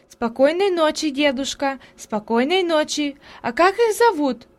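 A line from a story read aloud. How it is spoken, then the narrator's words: Shouting after someone. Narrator (Russian): кричала наслед удаляющемуся деду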